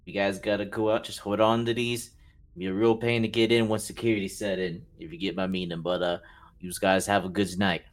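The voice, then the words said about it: Macho tough-guy accent. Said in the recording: “I'm admiring your accent. It's very macho, Mr. Man.”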